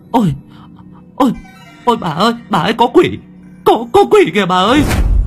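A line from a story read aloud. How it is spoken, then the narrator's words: Terrified shriek. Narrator (Vietnamese): người phụ nữ rú lên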